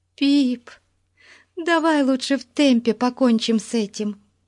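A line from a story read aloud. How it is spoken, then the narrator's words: Pleading. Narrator (Russian): взмолилась Бетси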